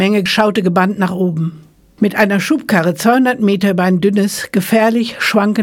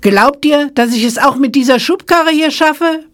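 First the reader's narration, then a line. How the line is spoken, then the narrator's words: Calling down from above. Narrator (German): rief herunter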